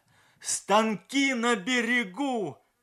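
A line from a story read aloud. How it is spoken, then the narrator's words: Shouting while running around. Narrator (Russian): кричал Морозов, бегая от палатки к палатке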